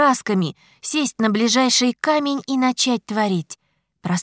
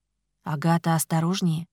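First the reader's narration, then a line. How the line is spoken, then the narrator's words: Quiet plea. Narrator (Russian): тихо попросил Ричард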